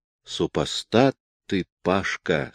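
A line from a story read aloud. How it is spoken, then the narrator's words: Plain. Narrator (Russian): сказал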